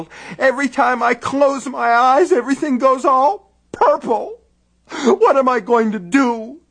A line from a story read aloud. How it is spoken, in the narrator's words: she wailed